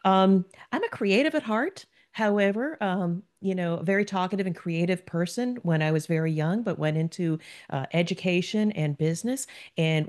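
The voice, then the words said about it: New Jersey accent. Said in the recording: “if you listen to my accent, I am a Jersey girl”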